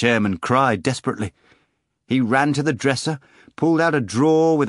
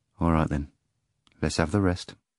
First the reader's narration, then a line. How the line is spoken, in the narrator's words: agreed, and again added softly